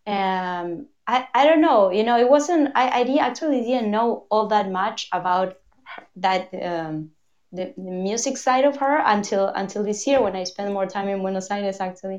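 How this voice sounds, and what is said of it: Argentinian-accented English. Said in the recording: “I'm Argentinian, like fully Argentinian again. So sorry about my accent.”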